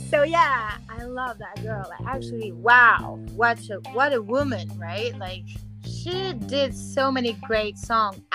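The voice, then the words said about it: Speaker's own foreign accent. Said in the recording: “sorry for my accent”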